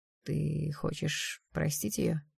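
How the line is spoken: Gentle question. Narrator (Russian): мягко спросил Даррелл

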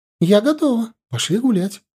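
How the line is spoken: Happy. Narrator (Russian): радостно сказала она

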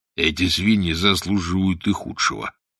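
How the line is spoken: Grumbled. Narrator (Russian): проворчал Волверстон

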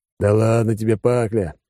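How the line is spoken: After laughing. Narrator (Russian): отсмеявшись, сказал Алекс

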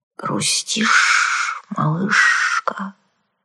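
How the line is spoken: Sympathetic hiss from behind. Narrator (Russian): сочувственно прошипела за спиной

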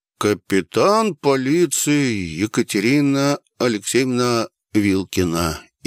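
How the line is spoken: Slow mocking reading. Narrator (Russian): издевательски медленно прочел документ старший сержант

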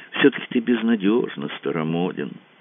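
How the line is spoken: Sighing. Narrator (Russian): вздохнула Ольга

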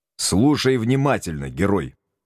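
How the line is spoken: Stern. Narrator (Russian): строго начал я

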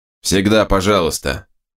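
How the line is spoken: Snapping retort. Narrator (Russian): огрызнулся берс

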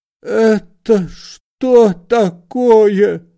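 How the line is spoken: Old man, dejected voice. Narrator (Russian): спросил старик упавшим голосом

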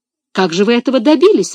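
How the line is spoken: Exclaiming. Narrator (Russian): воскликнула Мари

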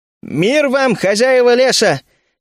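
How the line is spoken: Shout. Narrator (Russian): крикнул я на языке троллей

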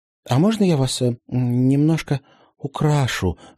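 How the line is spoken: Timid question. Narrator (Russian): робко поинтересовалась Полина у елки

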